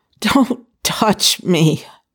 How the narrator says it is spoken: Zhao Yinlan moaned

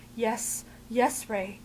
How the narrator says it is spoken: Fraser's gasping

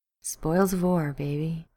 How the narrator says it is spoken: Ruby purred

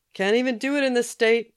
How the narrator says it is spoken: he yelled after her

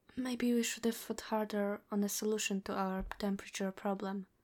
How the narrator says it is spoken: he says, pinching his voice into a lower whisper so Danny won't hear

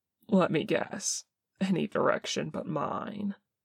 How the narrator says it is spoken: says Jin dryly

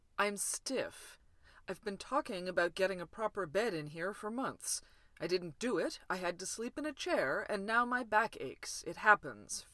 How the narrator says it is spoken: Finch snapped

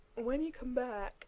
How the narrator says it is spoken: Dean said around a yawn

